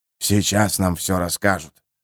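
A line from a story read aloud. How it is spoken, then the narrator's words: Whispered right into ear. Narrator (Russian): прошептал Колин в самое ее ухо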